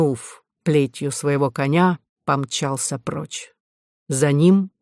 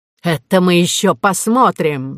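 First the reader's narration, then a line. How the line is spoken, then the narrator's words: Shouted. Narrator (Russian): закричал Перефой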